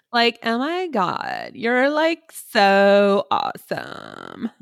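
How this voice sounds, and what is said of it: Put-on Valley Girl voice. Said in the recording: “I like Valley Girl the best though”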